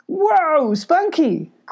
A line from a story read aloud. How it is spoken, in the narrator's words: cried Molly